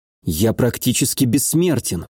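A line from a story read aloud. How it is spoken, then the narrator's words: Bewildered mutter. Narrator (Russian): пробормотал я, не зная, что и думать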